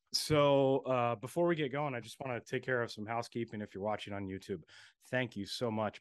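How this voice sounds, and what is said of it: Raspy, hoarse voice. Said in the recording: “I'm a little under the weather. If you hear my raspy voice”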